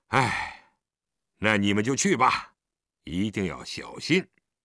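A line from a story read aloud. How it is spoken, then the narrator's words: Resigned sigh. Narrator (Chinese): 他不由得叹了口气道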